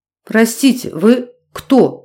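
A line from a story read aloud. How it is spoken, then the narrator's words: Stammering question. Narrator (Russian): заикаясь, спросил он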